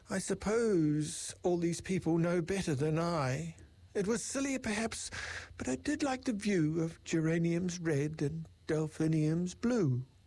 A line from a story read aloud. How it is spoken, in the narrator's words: The Dormouse he said with a sigh